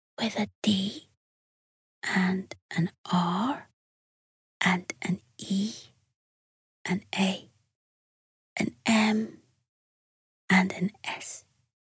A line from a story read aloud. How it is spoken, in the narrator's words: whispered Cuddle